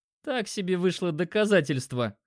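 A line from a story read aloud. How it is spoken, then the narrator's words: Short laugh. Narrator (Russian): хохотнул Димка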